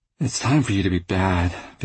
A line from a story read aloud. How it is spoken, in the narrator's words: Vivian said, yawning